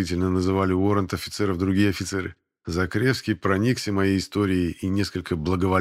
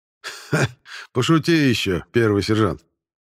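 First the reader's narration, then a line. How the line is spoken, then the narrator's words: Good-natured laugh. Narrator (Russian): Беззлобно хохотнул старший уоррент-офицер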